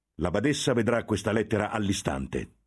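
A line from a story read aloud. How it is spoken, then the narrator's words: Thundered. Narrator (Italian): tuonò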